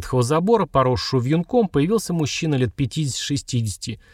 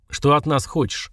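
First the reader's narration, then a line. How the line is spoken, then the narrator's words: Gloomy question. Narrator (Russian): мрачно спросил Сергар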